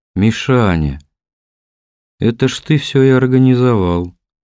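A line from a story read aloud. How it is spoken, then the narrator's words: Drawled. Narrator (Russian): протянул Кнут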